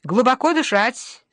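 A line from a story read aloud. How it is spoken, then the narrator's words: Cheerful. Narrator (Russian): советует он весело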